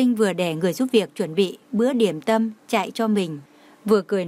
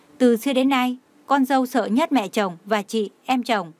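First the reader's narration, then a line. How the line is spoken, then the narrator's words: Smiling. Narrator (Vietnamese): Chú Anh mỉm cười nói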